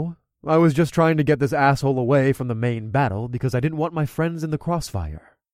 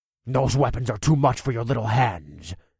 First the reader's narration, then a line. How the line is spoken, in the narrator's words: Gergen snarled as he ran at me full tilt